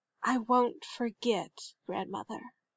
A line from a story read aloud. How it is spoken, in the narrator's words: Turok whispered